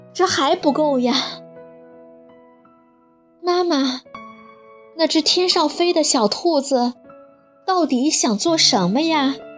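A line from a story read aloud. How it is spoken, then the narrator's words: Sighing. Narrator (Chinese): 妈妈和波尔 叹了口气，说道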